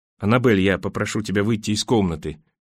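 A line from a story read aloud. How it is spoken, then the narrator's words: Plain. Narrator (Russian): сказал он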